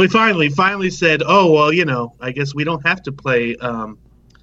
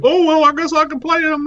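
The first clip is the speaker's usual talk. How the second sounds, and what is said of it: Imitates another person's voice. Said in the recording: “That's my impression of him.”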